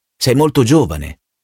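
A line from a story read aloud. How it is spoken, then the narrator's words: Plain. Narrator (Italian): disse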